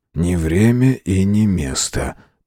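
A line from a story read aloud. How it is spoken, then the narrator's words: Whisper. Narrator (Russian): прошептал он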